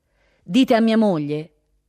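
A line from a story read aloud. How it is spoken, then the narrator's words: Loud, clear voice. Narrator (Italian): rispose con voce alta e chiara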